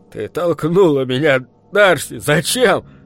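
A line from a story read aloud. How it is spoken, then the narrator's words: Choking, forced out. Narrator (Russian): Захлебываясь, он сумел выдавить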